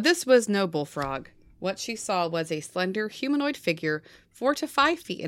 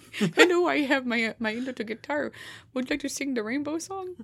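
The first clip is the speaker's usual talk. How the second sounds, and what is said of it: Weak Kermit the Frog impression. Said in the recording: “Sadly, I can't do a very good Kermit impression.”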